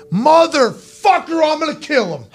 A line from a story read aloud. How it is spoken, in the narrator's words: the guy yell